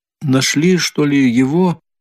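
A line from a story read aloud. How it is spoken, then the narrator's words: Timid question. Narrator (Russian): робко спросила она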